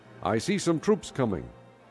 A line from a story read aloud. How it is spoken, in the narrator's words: the lookout standing on the tower in Jezreel ... he called out